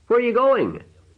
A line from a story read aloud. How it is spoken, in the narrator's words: the cousin shouted, trembling